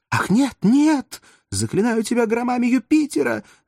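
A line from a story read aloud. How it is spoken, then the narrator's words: Feigned horrified scream. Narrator (Russian): закричала куртизанка, притворяясь пораженной ужасом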